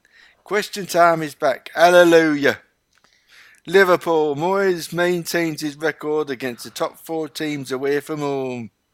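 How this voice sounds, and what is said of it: Put-on regional accent while reading. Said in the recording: “I won't do the accent. ... No, I will do. ... you can't read it without the accent.”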